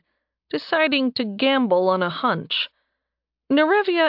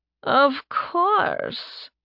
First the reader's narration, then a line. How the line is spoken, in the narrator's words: Astra purred